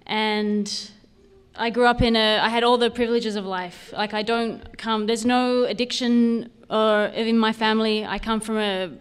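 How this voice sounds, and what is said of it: Australian accent with slight Canadian tinge. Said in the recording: “I'm Australian... my funny accent... I don't sound like a Canadian really, do I? A little bit. There's a little bit mashed in there.”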